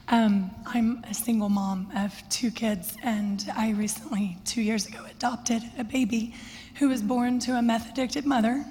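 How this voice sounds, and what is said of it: Hoarse, partly lost voice. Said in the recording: “I've lost my voice recently.”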